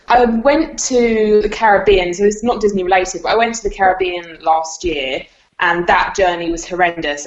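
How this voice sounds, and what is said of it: UK accent. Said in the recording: “your accent, from the UK”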